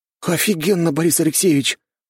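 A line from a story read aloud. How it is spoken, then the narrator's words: Delighted breathless exhale. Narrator (Russian): с восторгом выдохнул я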